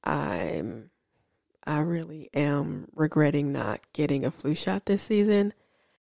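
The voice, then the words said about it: Sick-sounding voice. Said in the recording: “excuse my voice. ... under the weather again”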